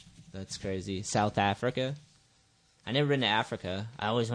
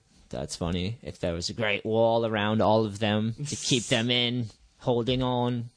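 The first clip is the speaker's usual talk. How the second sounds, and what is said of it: Put-on unidentified accent. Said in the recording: “I don't know why I did that accent. I don't even know what the accent was.”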